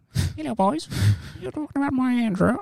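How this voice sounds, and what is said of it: Put-on accent imitating a soap character. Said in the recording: “I don't know what accent was. That was like Doc Cotton.”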